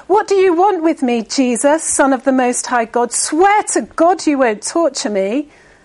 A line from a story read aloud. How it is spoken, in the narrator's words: he shouted at the top of his voice